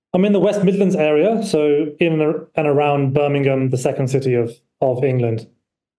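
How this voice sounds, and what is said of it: A noticeable accent. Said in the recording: “Obsessed with your accent.”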